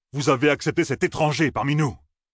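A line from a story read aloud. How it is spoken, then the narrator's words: Roared. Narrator (French): rugit-il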